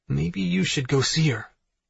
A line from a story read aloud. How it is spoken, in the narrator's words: I whisper into Elle's ear